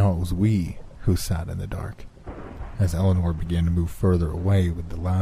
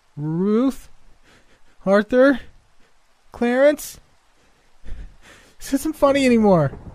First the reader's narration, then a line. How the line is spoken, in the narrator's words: Shakily, she called out